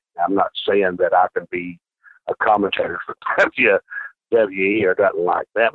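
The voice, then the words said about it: New York City accent. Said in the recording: “you could tell with his accent, I'm from New York City”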